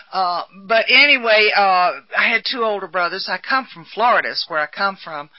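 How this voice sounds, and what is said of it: Southern American accent. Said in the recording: “I don't really speak good English. I speak Southern. And it's a little bit worse sometimes than it is in others.”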